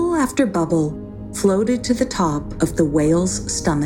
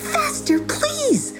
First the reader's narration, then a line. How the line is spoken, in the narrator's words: begged the little fish, who was just about out of water